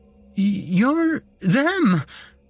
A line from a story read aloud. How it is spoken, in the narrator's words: I stammered, my mouth too dry to properly speak